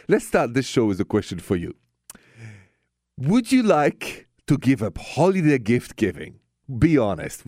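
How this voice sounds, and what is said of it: French accent. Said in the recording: “my accent is French. Straight from Paris.”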